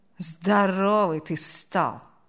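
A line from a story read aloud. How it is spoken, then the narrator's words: Drawn out, disappointed. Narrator (Russian): С огорчением протянул он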